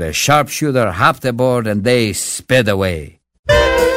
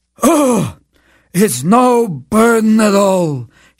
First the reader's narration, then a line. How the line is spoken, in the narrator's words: replied wearily